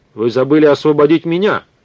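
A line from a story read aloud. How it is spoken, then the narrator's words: Shout. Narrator (Russian): крикнул он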